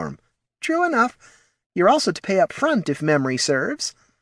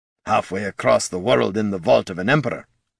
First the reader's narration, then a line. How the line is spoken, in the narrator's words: muttered Gorm